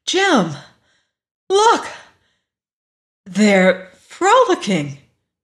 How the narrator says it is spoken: Louise exclaimed suddenly

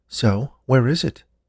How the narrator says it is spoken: Joan asked

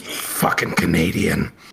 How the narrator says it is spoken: laughs and under his breath, he says

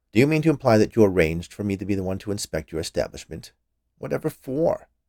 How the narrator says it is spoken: he asked

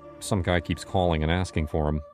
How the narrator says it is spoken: mumbled, not really satisfied with that answer

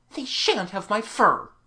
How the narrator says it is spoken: she said sharply

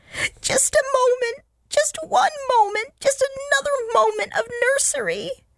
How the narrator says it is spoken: they wailed

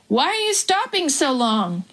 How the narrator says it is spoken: he shouted

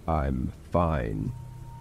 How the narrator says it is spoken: he said in a deep, threatening tone

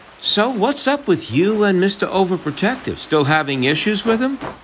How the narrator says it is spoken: Alejandra sighs

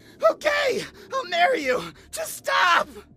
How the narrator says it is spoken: I screamed

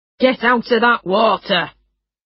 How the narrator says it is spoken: He shouted loudly to the children

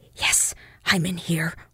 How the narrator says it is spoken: whispered Acton

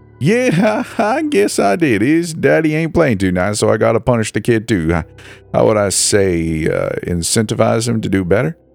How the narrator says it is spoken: The fat man laughed

